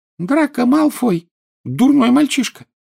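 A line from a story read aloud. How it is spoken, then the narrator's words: Angry squeak. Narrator (Russian): сердито пропищал Добби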